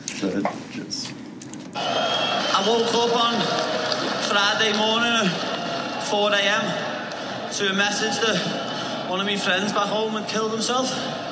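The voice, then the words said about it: Very heavy Scouse accent. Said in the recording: “from Liverpool, England, and has a very, very heavy Scouser accent”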